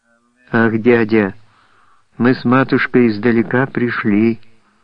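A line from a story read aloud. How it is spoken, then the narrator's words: Calm child. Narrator (Russian): спокойно произнес ребенок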